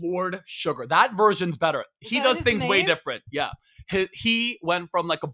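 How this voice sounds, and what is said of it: Usual voice. Nothing is said of it.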